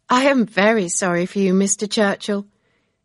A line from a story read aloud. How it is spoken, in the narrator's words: Emma said with a laugh